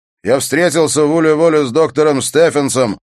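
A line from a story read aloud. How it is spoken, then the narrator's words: Shout. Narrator (Russian): прокричал он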